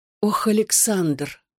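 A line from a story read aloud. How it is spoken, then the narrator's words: Breathless. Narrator (Russian): выдохнула она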